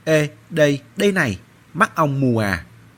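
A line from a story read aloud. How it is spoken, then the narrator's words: Angry roar. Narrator (Vietnamese): Anh Mao tức giận gào lên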